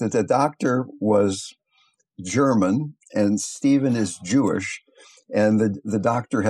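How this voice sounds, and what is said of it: Usual voice. Nothing is said of it.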